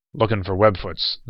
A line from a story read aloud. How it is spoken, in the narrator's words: the man growled